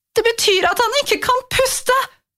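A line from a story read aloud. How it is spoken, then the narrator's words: Mother screaming. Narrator (Norwegian): skrek mamma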